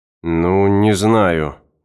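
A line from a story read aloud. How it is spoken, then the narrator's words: Hesitant drawl. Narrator (Russian): неуверенно протянул Эванс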